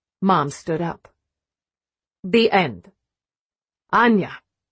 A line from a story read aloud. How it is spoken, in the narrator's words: Dad said sharply